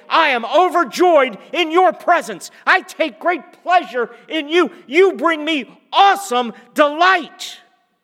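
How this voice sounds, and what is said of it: Yelling loudly. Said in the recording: “sorry for yelling”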